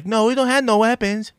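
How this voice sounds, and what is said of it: Weird put-on Hispanic accent. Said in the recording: “I gave him a weird Hispanic accent”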